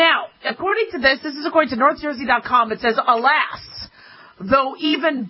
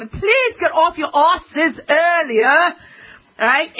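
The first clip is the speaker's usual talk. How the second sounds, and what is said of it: Put-on British accent as Benjamin Franklin. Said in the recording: “Benjamin Franklin might not have talked like that. There was probably some kind of British accent.”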